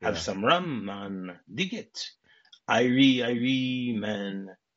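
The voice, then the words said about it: Put-on Jamaican accent. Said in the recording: “John Candy, Del, starts giving us a little bit of a Jamaican accent”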